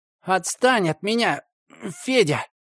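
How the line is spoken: Strangled wheeze. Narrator (Russian): задушенно просипел я

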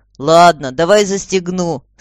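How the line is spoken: Boy, no longer laughing. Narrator (Russian): сказал мальчик, перестав смеяться

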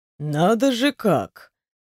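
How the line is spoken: Drawn out, strange intonation. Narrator (Russian): Все с той же непонятной интонацией протянул

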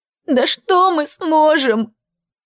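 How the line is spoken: Sobbing. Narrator (Russian): вновь всхлипнула Брит

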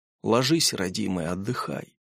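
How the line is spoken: Gentle affectionate. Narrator (Russian): Владимир Петрович ласково говорит

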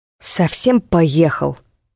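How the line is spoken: Newcomer's hiss. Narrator (Russian): прошипел новенький

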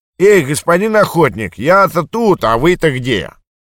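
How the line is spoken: Anxious shout. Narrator (Russian): Рыбак, боясь, что сделка не состоится, крикнул

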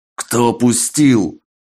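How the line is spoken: Menacing growl. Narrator (Russian): грозно зарычал Мезенцев

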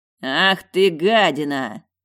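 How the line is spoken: Furious growl. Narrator (Russian): яростно прорычал он

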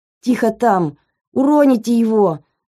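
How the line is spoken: Shouting. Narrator (Russian): закричала на санитаров Светлана Ивановна

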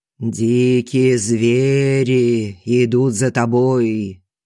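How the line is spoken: Sepulchral voice. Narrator (Russian): за могильным голосом говорит Колесников

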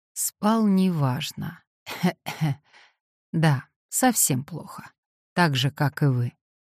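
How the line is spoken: Dull, muffled reply. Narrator (Russian): человек, к которому относился вопрос, глухо ответил

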